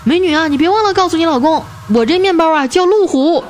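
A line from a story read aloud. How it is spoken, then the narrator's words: Loud shout. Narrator (Chinese): 旁边那车主大声的喊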